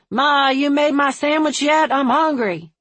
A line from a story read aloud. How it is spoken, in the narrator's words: Somewhere in the house, a male voice shouted